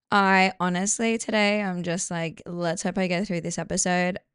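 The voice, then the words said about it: Strained, fading voice. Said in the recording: “my voice is kind of going ... I'm a bit hungover”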